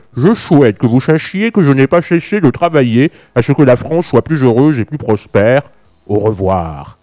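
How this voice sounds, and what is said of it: Imitates another person's voice. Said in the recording (French): “Je vous fais une petite imitation”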